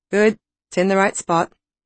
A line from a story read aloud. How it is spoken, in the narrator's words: he said blandly, as if my uterus was a piece of industrial equipment